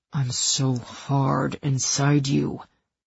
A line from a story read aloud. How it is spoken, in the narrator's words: he growled